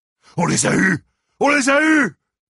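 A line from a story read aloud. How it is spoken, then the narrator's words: Roared. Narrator (French): rugit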